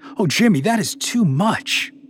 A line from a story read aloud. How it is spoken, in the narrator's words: Candace gasped, shocked